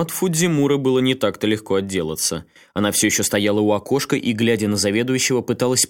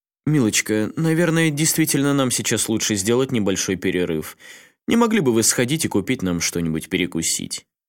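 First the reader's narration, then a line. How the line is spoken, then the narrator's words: Calm, controlled voice. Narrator (Russian): как можно более спокойным голосом Нагао произнес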